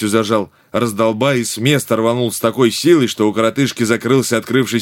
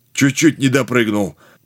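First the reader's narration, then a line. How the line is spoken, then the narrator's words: Hoarse wheeze, spluttering water. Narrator (Russian): Прохрипел он, отрыгнув ведро тухлой от городских нечистот воды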